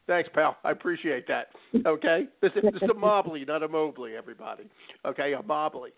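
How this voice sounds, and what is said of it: Jersey-area American accent. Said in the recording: “I lived in Jersey for a while. I understand your accent.”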